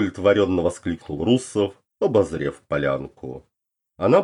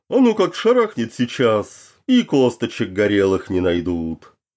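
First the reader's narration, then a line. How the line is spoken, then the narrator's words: Nervous giggle. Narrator (Russian): Нервно хихикнул он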